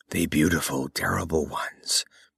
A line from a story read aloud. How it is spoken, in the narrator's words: whispered Otar